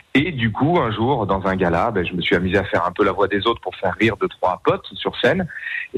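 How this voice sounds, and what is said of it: Marseille southern French accent. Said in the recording (French): “Vous êtes originaire du sud de la France ... comme ça s'entend ... un bel accent de Marseillais.”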